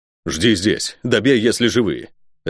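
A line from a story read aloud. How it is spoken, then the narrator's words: Barking gruff shout. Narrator (Russian): рявкнул следопыт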